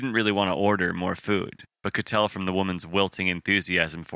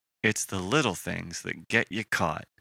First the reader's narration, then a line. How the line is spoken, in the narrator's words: he muttered